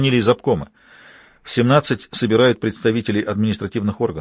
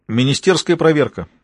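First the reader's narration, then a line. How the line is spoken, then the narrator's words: Brisk, cheerful reply. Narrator (Russian): бодро ответил дежурный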